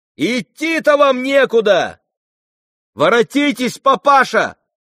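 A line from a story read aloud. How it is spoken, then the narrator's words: Shouted. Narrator (Russian): крикнула Варя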